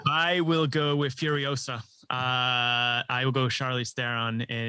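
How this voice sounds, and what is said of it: Usual voice. Nothing is said of it.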